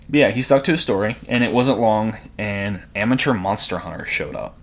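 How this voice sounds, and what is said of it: Speaker's own accent. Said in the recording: “Leave my accent alone.”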